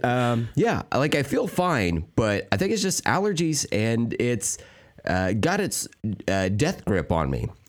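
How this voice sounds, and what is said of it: Hoarse, strained, tired voice. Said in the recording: “my voice is fucked up ... my voice is a little bit hoarse ... it sounds like my voice is like strained and tired”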